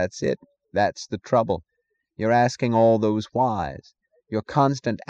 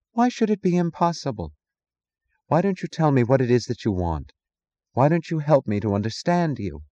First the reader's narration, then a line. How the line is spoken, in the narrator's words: sighed